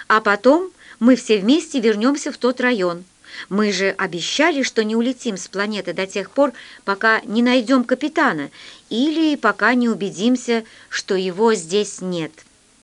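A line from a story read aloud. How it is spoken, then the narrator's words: Stern. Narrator (Russian): сказал я строго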